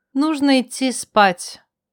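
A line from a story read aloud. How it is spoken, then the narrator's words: Sad, sighing. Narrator (Russian): Не скрывая грусти, вздохнула, сказала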